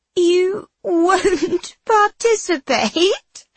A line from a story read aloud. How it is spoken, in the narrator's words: Sophia laughs in my face